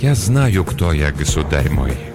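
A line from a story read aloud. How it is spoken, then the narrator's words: Soft, gentle. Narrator (Russian): мягко произнес Ланселот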